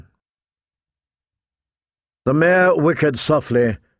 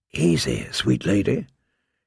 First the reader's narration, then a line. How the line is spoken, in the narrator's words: he said in a soft voice